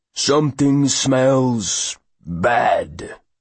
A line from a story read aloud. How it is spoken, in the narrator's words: rumbles an angry voice from one of the lower berths